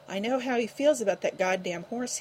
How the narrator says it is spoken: gasped, his normally even voice quivering and cracking

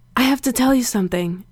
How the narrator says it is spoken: he gasped

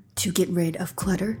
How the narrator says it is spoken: she replied

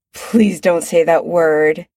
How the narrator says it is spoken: Chris says, groaning

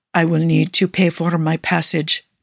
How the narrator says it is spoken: Nicola mumbles

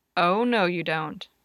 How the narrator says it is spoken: James said firmly

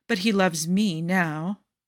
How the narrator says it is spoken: Jafar purrs with a cruel smirk

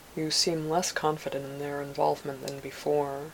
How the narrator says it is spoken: said

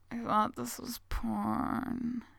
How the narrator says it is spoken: he slurs

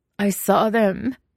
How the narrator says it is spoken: he wails

